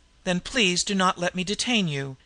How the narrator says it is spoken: she said sharply

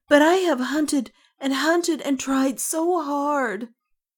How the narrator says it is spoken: cried the wind boy

